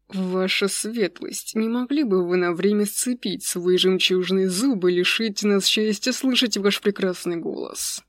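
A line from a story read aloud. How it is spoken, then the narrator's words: Through gritted teeth. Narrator (Russian): Процедил Аджим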